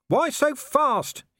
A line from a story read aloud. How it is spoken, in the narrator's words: he shouted